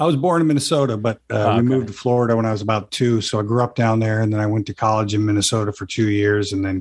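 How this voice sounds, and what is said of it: Usual voice. Nothing is said of it.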